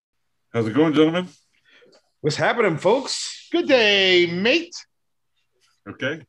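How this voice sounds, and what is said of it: Put-on British accent. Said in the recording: “your little British accent”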